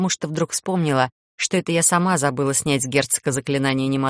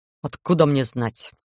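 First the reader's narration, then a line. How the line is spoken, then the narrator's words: Gruff snort. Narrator (Russian): Грубовато фыркнул голландец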